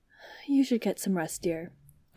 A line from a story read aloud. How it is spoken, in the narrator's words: Obi-Wan muttered